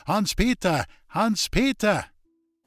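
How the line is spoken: Shout. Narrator (German): schrie er schon wieder

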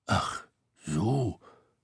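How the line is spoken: Grumbling. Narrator (German): brummte Tete

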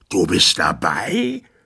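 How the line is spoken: Tyrant's angry shout. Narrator (German): schrie der Tyrann wütend

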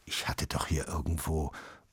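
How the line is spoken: Murmuring. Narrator (German): murmelte Papa

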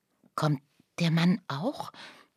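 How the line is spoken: Fearful whisper. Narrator (German): flüsterte Lucia ängstlich

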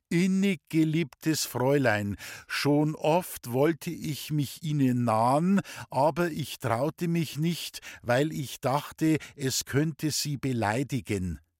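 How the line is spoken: Reading aloud to class. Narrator (German): Er las zuerst laut vor der ganzen Klasse

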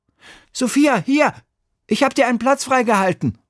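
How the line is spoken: Calling out. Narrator (German): ruft Emil

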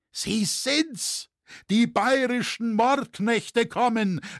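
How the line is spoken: Crowd screaming, angry yet fearful. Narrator (German): schrie alles in wilder Hast, wütend und doch angstvoll

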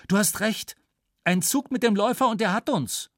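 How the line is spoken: Calling out. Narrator (German): rief Flieger

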